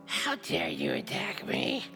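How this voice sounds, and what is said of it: Very evil character voice. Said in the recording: “in a very evil voice”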